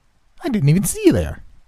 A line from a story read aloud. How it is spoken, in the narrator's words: he exclaimed